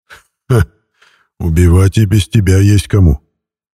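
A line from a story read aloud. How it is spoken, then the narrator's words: Short laugh. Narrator (Russian): хохотнул Умрун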